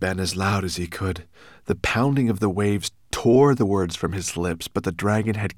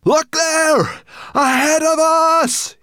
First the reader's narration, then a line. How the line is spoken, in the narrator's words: yelled Ben